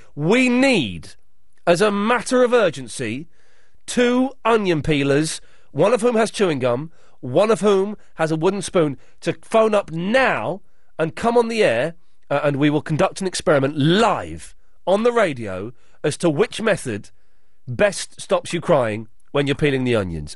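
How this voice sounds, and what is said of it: Dramatic announcer-style voice. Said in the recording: “my dramatic voice”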